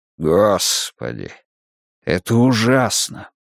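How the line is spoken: Breathless exhale. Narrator (Russian): выдохнул Уайерман

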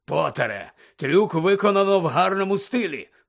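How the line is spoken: Growled. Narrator (Ukrainian): прогарчав він

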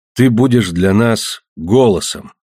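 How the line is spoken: Solemn. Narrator (Russian): сказал я торжественно

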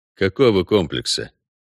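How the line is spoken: Calm and indifferent. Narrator (Russian): все так же спокойно и безразлично уточнил Геральт

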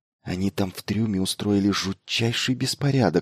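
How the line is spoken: Whispered through teeth. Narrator (Russian): сквозь зубы шепнула Майлзу Елена

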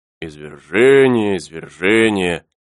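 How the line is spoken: Displeased grumble. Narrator (Russian): с неудовольствием проворчал Пенкроф

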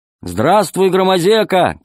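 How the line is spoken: Shout. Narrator (Russian): крикнула Алиса

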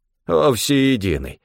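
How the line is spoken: Grumbling. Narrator (Russian): проворчал Стефан

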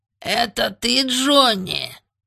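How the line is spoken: Squeaky. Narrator (Russian): пропищал он

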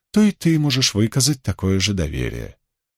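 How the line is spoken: Melodious female voice. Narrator (Russian): произнесла тем же мелодичным голосом невидимая женщина

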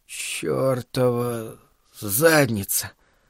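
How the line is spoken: Groaning. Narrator (Russian): простонал он

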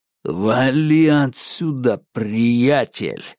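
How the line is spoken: Menacing growl. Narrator (Russian): прорычал парень, державший нож у моего горла

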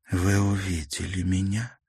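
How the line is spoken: Trembling whisper. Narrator (Russian): прошептала она, чувствуя, что ее охватывает дрожь

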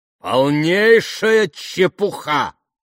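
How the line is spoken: Booming. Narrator (Russian): прогремел лорд Вестерхэм

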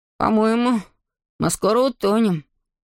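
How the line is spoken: Crushed, dejected voice. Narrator (Russian): убитым голосом заметил Эйден

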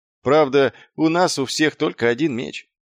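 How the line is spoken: Gloomy. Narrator (Russian): мрачно промолвил Маркоу

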